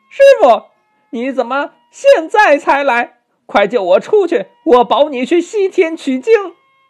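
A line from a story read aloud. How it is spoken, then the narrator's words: Old monkey calling out. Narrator (Chinese): 老猴 向三藏 喊呐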